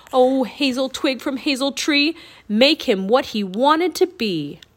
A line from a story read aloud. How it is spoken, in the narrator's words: He shouted